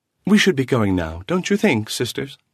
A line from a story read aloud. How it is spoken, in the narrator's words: Lucia, smiling brightly